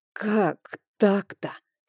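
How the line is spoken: Hoarse nervous question. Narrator (Russian): сипло спросила, от волнения голос немного сел

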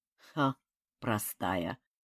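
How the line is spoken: Grumbling. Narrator (Russian): буркнул Чинха

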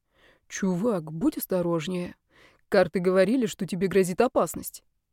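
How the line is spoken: Quiet. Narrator (Russian): темные силы сказал мне тихо

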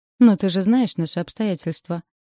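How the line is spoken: Gloomy reply. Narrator (Russian): мрачно отзываюсь я

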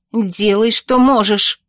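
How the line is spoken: Barked command. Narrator (Russian): рявкнула я

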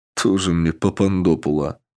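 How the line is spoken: Snorting scoff. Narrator (Russian): хмыкнул Александр

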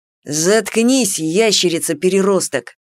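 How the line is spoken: Angry retort. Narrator (Russian): зло бросил Рен Саламандрику

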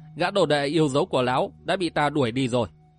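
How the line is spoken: Smiling. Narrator (Vietnamese): Ngọc Diện Thất Tình La Sát mỉm cười rồi nói

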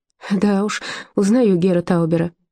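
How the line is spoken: Laughing. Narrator (Russian): засмеялась Зильке

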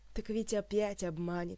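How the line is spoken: Sighing. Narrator (Russian): вздохнула Ольга

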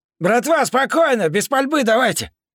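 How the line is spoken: Distant shouting. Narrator (Russian): Закричали от входа

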